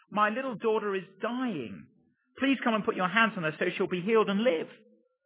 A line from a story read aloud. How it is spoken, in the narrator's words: pleaded earnestly with him